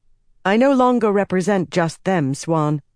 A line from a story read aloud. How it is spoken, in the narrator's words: Egwene said firmly